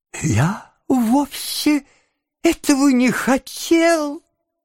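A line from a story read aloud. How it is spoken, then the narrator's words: Whimpering. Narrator (Russian): захныкал Ноэ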